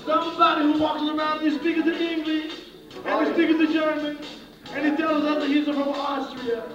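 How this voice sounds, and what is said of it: Strange put-on Israeli accent. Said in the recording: “You have a very strange Israeli accent.”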